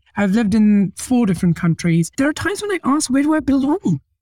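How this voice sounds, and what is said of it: Unusual mixed accent. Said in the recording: “I've got a weird accent. I switch accents every now and then when I go to India or here.”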